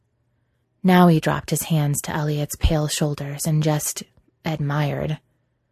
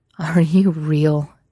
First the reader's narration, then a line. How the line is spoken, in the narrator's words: Elliot groaned